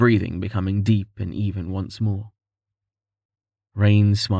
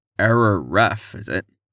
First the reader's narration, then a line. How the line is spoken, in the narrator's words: Rain sighed